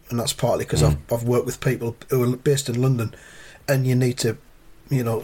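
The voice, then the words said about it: Softened Mackem accent. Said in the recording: “my accent isn't as strong as it was when I was younger ... soften it to be able to be fucking understood ... full on Macam”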